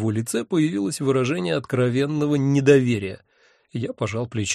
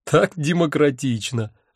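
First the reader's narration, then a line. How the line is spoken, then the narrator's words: Burst out laughing. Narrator (Russian): расхохотался я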